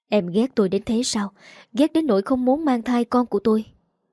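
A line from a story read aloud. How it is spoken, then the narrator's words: Gentle, bitter question. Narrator (Vietnamese): Phó Ngụy Trạch khẽ nở một nụ cười chua chát, nhẹ nhàng hỏi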